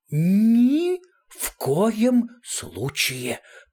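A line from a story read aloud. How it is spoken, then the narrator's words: Hissing, dying breath. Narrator (Russian): прошипел МС, словно при последнем издыхании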